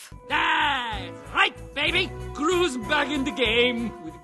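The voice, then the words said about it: Gru's unplaceable foreign accent. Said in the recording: “Gru should have an accent ... I couldn't really tell what sort of accent, and I don't think anybody can actually determine what accent I'm doing”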